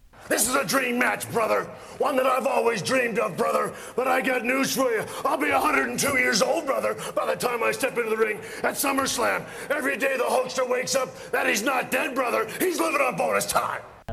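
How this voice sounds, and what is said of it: Hulk Hogan impression. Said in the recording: “Let me do a better impression. ... You were a real American Hulk Hogan in that.”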